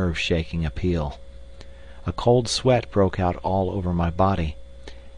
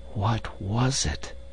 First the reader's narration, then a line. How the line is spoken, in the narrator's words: I whispered